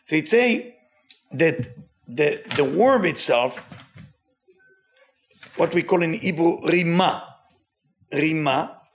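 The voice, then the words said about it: Speaks English with a noticeable accent. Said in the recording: “with my accent? ... sometimes with my accent uh, I can confuse you”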